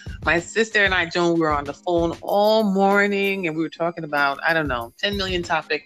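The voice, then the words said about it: Animated, excited, non-regular voice. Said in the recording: “You hear the animation in my voice? ... I'm not doing it unless you talk in your regular voice”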